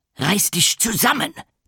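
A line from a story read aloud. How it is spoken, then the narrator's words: Hissed. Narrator (German): zischt er seinem Assistenten zu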